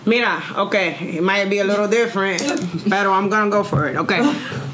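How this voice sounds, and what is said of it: Mixed Dominican Cuban Mexican accent. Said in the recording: “Accent ... It's ... accent ... Dominican, Cuban, and Mexican”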